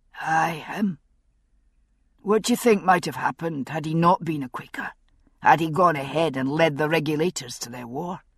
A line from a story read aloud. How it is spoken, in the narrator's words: Jamie grunted slightly, thinking